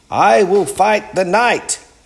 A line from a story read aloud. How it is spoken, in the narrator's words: cried